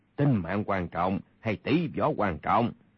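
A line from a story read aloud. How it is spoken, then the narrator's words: Cold. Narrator (Vietnamese): Kha Trấn Ác lạnh lùng nói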